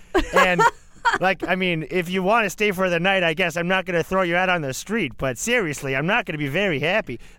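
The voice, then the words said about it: Put-on Canadian accent. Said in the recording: “the rudest thing a Canadian has ever done ... I lost the accent.”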